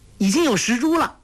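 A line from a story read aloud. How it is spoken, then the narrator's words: Calling out. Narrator (Chinese): 黄蓉叫道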